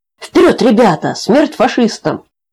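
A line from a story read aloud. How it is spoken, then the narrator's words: Warriors shouting together. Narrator (Russian): кричали воины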